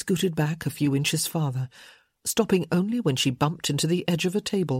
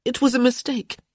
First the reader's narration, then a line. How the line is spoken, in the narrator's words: she said, her voice shaky